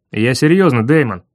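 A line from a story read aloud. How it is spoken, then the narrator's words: Barking again. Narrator (Russian): Опять рявкнул он, решив, будто я блефую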